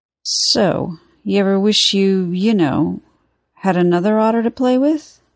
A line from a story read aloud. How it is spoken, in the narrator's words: Ray asked, his tone almost suspiciously casual